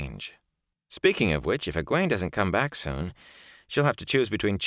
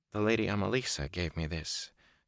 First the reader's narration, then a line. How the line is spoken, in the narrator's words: she said so softly he wondered if she was speaking to herself